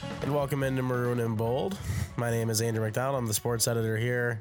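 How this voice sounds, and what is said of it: Nasal, congested voice. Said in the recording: “if I sound a little nasally today, even more than I normally do, but I'm kind of sick. Been getting a major cold.”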